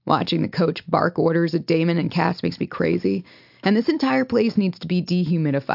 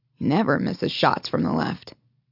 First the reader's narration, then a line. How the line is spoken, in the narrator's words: he mutters